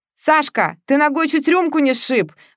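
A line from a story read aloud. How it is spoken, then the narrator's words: Exclamation. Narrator (Russian): воскликнул Матвеев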